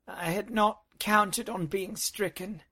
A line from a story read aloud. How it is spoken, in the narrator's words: she moaned